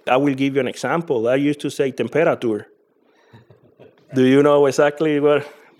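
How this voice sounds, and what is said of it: Strong accent. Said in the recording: “how you can hear I have a strong accent”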